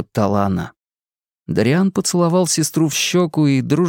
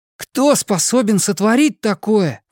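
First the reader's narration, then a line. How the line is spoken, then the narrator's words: Exclaiming. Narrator (Russian): воскликнул Дариан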